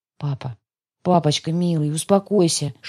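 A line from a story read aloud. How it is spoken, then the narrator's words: Whispering. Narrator (Russian): шептала я ему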